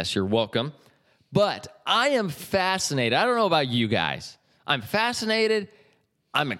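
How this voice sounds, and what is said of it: Usual voice. Nothing is said of it.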